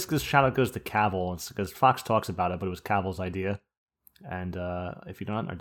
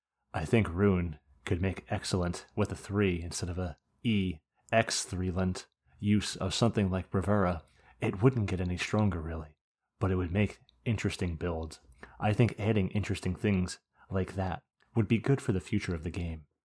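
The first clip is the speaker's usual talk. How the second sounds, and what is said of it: Silky imitation of another person's voice. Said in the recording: “I can't even do a fucking Fox voice. ... I'll try to be a little silky here”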